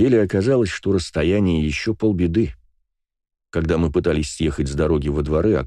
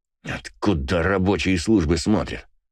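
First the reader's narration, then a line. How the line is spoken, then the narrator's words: Hissed angrily through teeth. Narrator (Russian): Зло процедил Иваныч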